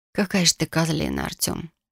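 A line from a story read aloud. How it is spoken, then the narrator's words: Hoarse, strained voice. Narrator (Russian): проговорила хрипло и сдавленно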